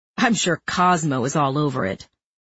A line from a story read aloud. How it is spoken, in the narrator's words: Greg snorted